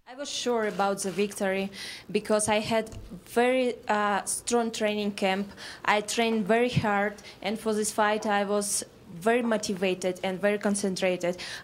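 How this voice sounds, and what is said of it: Slight foreign accent in English. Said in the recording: “she's got a little bit of an accent, but she spoke without a translator”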